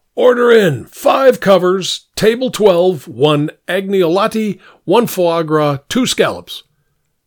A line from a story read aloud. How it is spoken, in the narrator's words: the chef shouted